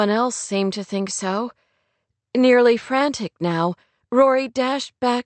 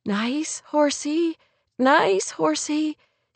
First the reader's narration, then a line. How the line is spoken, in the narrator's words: she repeated soothingly over and over